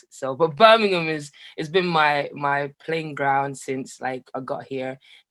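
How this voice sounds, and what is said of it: London-ish accent with Caribbean tinge. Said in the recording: “your accent, because it sounded a bit London-y, but then it sounded a bit Caribbean”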